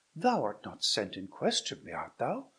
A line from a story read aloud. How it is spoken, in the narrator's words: cried she